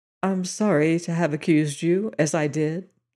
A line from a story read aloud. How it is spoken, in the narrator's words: he said softly, with a little smile